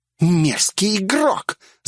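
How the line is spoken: Choking, lisping. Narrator (Russian): захлебываясь словами, зашепелявила

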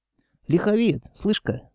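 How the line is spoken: Sly drawl. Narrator (Russian): коварно протянул Михалыч

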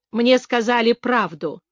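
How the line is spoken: Dry remark. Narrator (Russian): сухо заметила Лора

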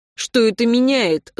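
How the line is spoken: Angry question. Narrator (Russian): зло спросил Антон

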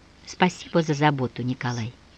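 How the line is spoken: Strained, barely audible. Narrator (Russian): собрав волю в кулак, едва слышно промолвила

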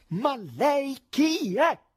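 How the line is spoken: Furious shout. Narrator (Italian): Completamente infuriato, gridò

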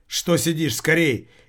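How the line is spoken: Hysterical shout. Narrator (Russian): истерично закричал Келлер

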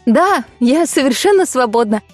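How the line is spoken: Laughing. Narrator (Russian): рассмеялась

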